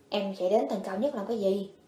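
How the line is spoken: Quiet question. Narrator (Vietnamese): nhỏ giọng hỏi

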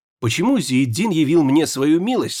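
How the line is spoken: Plain question. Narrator (Russian): спросила специалистка

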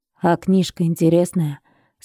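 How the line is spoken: Plain. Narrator (Russian): спросил

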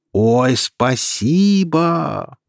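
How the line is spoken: Drawn-out. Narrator (Russian): протянул Эльнар

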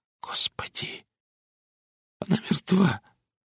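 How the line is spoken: Rustling trembling voice. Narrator (Russian): прошелестел дрогнувшим голосом

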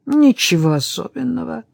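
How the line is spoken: Through gritted teeth. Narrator (Russian): процедил Патрик

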